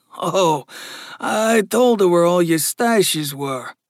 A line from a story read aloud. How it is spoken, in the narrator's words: Gus said with a chuckle